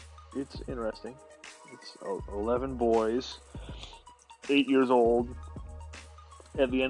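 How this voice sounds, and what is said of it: Usual voice. Nothing is said of it.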